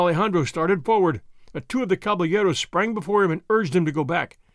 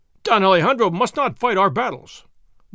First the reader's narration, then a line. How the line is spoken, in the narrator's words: one of them cried